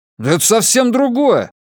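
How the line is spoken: Angry, dismissive. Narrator (Russian): сердито отмахнулся

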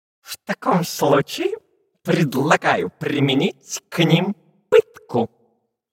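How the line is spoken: Through gritted teeth. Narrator (Russian): процедил сквозь зубы первый помощник марсианского генерала

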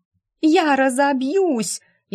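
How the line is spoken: Hysterical shriek. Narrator (Russian): Истошно вопила Мажета

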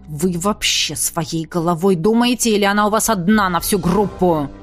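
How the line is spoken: Growling. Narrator (Russian): прорычал куратор

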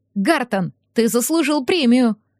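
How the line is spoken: Cheerful shout from window. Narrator (Russian): весело крикнула я, высунувшись из окна

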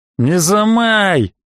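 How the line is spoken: Menacing shout. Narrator (Russian): грозно прикрикнул Леха

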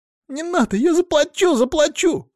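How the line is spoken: Squeaky, small boy. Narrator (Russian): Снова пропищал малец

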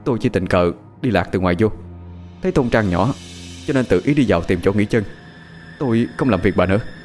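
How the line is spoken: Trembling, fearful. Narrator (Vietnamese): Thiên run rẩy lắc đầu nói

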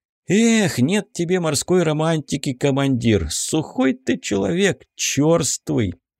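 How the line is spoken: Sad sigh. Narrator (Russian): грустно вздохнул Корнеев

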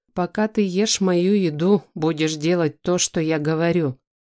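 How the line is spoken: Growled. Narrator (Russian): прорычал Айдар

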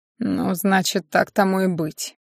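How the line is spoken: Mutter. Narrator (Russian): Пробормотал

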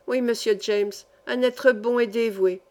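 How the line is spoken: Old man's quick reply. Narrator (French): répondit vivement le vieil Overman

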